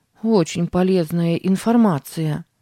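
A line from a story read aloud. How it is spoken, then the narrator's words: Grumbling. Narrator (Russian): проворчала Сара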